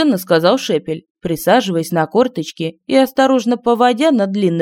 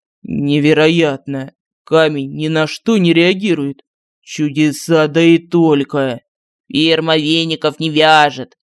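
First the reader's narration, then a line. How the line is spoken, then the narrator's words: Solemn announcement. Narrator (Russian): Торжественно сообщил Мар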